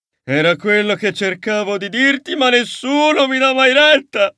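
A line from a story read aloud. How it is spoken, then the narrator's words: Exclaiming. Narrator (Italian): esclamò Sebastian Contrario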